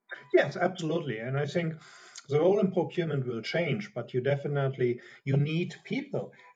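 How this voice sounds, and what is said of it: Strong German accent. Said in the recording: “as you can hear from my strong accent, I'm a German”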